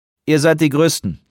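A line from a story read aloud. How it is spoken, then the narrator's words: Dry remark. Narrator (German): bemerkte Van Marten trocken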